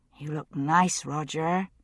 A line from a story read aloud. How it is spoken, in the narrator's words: she said softly